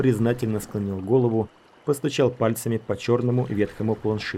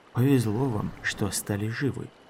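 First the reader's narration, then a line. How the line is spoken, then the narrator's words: Grumbled. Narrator (Russian): буркнул Шелк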